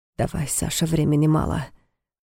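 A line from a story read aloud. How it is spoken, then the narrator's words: Whispered command. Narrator (Russian): шепотом велел Войтых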